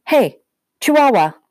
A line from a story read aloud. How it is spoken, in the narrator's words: yelled